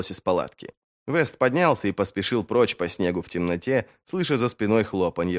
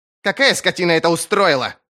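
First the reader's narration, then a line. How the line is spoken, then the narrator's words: Thundering voice. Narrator (Russian): прогремел на северном голос ищейки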